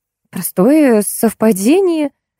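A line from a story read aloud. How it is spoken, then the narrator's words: Falsely cheerful exclamation. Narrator (Russian): фальшиво-бодро воскликнула я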